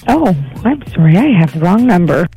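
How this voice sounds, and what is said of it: Low, sultry sexy voice. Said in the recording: “talking like sexy voice? ... I'm talking kind of low here ... one of the sexiest hellos”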